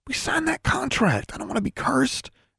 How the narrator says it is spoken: Angelique whispered

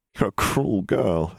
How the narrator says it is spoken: Harry said, stifling a laugh with a mouthful of bacon

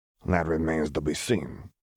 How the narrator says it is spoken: he muttered

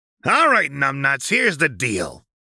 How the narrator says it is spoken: Jinx snarled out in Gutlau

